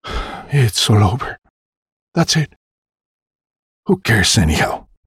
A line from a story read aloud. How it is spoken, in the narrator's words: muttering to ourselves